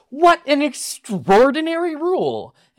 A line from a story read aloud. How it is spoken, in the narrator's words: in a brilliant display of deliberate misunderstanding, Anscombe reacted to the waiter exclaiming